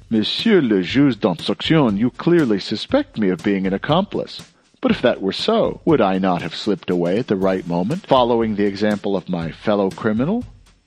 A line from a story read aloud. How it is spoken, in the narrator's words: The young man exclaimed gaily